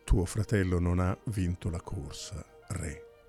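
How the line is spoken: Calm voice. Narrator (Italian): Con voce calma, Melampo disse

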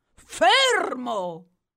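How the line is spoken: Great warrior's thundering command. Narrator (Italian): tuonò allora il grande guerriero d'ebano

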